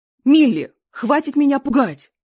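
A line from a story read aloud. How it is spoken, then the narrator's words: Full-force scream. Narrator (Russian): со всей силы закричала Кэтрин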